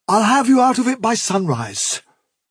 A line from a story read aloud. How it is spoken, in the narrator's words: replied Hazel desperately